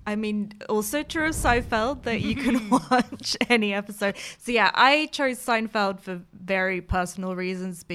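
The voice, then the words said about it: American accent. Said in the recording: “as people may be able to tell from my accent, I am American.”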